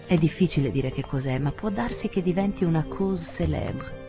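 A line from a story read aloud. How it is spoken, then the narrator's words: Plain. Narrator (Italian): disse il vicecapo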